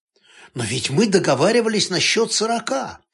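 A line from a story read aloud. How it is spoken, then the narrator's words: Reproachful exclamation. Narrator (Russian): с упреком воскликнула журналистка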